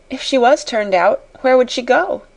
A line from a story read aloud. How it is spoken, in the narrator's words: inquired Jessie, a trifle anxiously